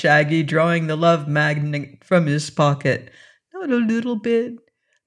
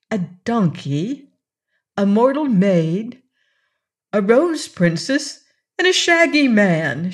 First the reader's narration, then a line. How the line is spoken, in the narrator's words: she exclaimed